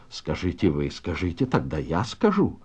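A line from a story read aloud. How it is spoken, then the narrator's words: Quiet. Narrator (Russian): тихо произнес Пиня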